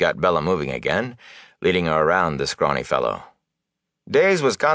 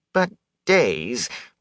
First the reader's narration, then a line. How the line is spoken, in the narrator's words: Wit whined